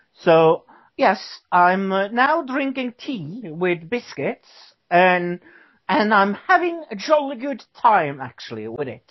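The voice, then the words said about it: Put-on British accent. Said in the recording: “the accent's totally working for you, bro”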